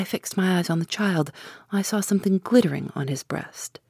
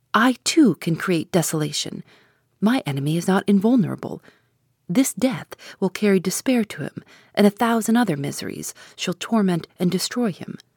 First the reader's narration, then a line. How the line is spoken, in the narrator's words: I exclaimed